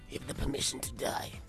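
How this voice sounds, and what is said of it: Weak raspy deep Batman-style voice. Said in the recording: “That was a very sad impression of a Batman voice... You sounded like the Godfather... After smoking for like 50 years and his lungs had packed up... He's just got a really deep voice.”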